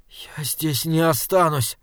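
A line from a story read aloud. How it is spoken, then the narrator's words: Weak voice. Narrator (Russian): проговорил Айзек слабым голосом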